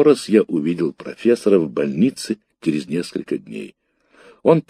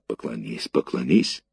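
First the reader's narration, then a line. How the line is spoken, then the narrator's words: Whisper. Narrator (Russian): шепнула мне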